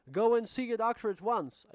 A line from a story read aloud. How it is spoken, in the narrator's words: I shouted